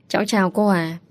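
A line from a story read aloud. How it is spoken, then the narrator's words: Gentle speech. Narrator (Vietnamese): An Trúc nhẹ nhàng cất lời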